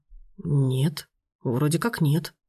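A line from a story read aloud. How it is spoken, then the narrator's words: Uncertain. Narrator (Russian): добавил неуверенно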